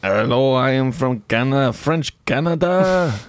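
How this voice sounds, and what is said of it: Put-on French Canadian accent. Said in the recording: “someone from Quebec ... doing the voice”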